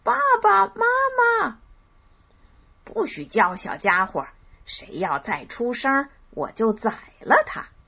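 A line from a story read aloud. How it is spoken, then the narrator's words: Shouting. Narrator (Chinese): 他们叫着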